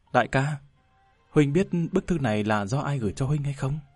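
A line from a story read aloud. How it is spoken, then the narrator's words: Whispered question. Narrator (Vietnamese): Sào Sào thì thầm hỏi hắn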